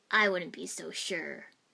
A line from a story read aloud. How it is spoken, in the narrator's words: Zabuza rasped right behind me